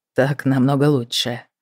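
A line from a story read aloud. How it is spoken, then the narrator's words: Low husky voice. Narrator (Russian): сказал он низким с хрипотцой голосом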